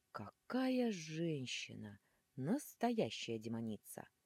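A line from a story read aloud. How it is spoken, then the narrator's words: Breathy exhale. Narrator (Russian): с придыханием выдохнул рогатый жених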